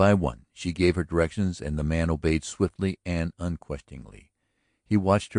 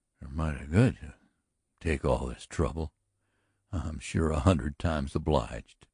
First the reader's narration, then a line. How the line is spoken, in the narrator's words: The cowboy struggled with his muscles and triumphed over them, summoning a sick grin as he muttered